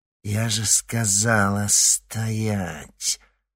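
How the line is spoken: Through clenched teeth. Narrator (Russian): процедила сквозь зубы Церцея

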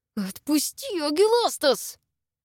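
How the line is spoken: Full hissing. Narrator (Russian): Зашипела уже теперь вовсю

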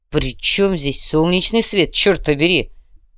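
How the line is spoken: Growled, commando. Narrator (Russian): прорычал спецназовец

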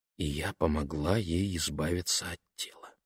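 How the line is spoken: Whisper. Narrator (Russian): она прошептала

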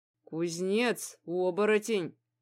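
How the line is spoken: Through gritted teeth. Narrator (Russian): сквозь зубы ответил он

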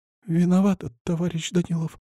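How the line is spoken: Near whisper. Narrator (Russian): почти шепотом проговорила

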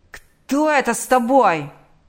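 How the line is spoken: Yelling. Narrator (Russian): заорал он

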